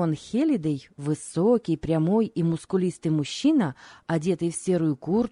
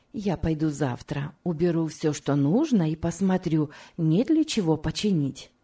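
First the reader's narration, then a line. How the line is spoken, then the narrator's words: Plain. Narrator (Russian): сказала Рахиль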